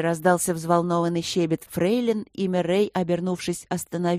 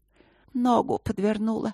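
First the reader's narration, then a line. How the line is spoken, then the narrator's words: Weak female voice. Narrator (Russian): сказала она слабым голосом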